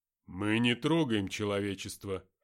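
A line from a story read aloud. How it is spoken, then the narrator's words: Calm. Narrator (Russian): спокойно ответил Аркаим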